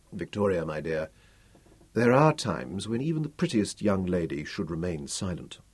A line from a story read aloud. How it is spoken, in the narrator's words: he murmured